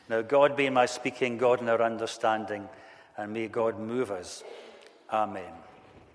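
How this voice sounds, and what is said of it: Accent not from Northern Ireland. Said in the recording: “as you can hear by my accent, I'm not from Northern Ireland”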